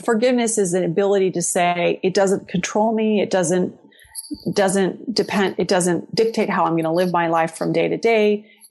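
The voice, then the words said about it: Emotional, slightly choked voice. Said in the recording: “I'm sure you can hear in my voice, it's still, there's some emotion there”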